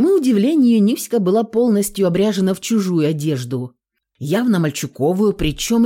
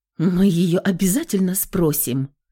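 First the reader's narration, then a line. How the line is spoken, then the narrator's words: Hoarse reply. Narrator (Russian): хрипло ответила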